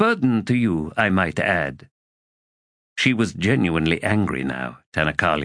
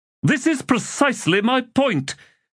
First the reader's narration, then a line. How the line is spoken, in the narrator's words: Abrastel snapped